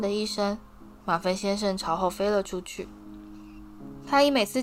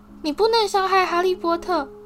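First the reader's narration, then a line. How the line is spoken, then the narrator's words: Shouting. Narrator (Chinese): 但多比却喊道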